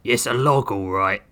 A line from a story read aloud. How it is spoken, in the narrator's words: Grissom growled